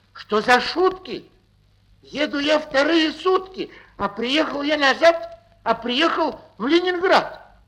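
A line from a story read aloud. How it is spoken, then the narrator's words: Shout. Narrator (Russian): Закричал он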